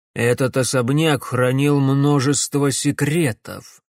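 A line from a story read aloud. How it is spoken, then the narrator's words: Gloomy pronouncement. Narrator (Russian): мрачно изрек Ипполит Германович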